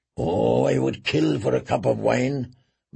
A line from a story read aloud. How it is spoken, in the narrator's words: muttered Tyrion